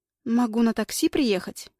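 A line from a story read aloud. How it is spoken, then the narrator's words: Mumbling. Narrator (Russian): мямлю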